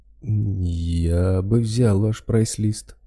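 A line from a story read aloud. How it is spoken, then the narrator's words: Slightly hesitant voice. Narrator (Russian): голос торговца звучал несколько неуверенно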